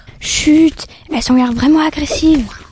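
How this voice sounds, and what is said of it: Whispering. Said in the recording (French): “Chuchote”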